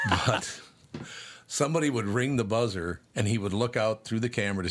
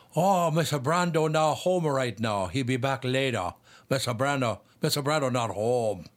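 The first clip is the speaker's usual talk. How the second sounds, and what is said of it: Imitates another person's fake accent. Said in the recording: “He makes up a fake accent.”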